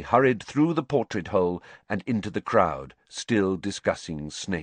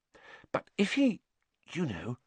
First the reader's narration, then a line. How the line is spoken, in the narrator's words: Hermione dropped her voice, glancing nervously around